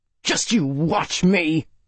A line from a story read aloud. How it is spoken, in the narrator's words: Max growled